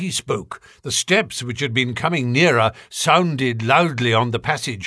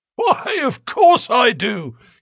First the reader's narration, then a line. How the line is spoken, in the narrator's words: he wheezed